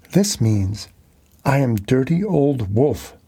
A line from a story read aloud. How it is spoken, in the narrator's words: she laughed